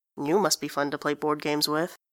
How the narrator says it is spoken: he mutters

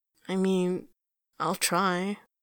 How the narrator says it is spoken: he says weakly

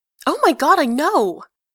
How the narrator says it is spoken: Eponine shouts

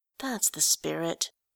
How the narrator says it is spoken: Fey murmured

